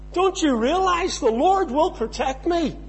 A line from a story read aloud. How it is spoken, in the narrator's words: he shouted above the noise